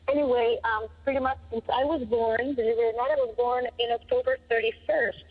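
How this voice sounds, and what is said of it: Ecuadorian Spanish accent in English. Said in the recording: “I'm originally from Ecuador, so you might hear a little bit of an accent there, or a lot of an accent.”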